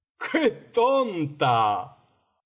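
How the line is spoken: Griffin exclaiming. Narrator (Spanish): exclamó el grifo

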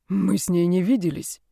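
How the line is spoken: Hoarse, choked with emotion. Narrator (Russian): прохрипел Брайан, пытаясь сглотнуть ком переживаний

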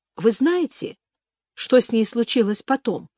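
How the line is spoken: Plain question. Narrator (Russian): спросила я

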